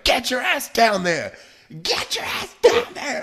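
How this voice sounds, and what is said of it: Impression of a man yelling. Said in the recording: “I love your impersonation. ... I felt like I nailed it.”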